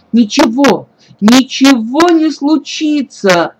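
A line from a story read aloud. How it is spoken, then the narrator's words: Loud uncontrolled shout. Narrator (Russian): Не в силах сдерживаться, в голос прокричала Лина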